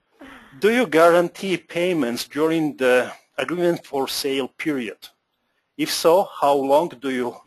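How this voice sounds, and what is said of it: Polish accent. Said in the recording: “With my Polish accent”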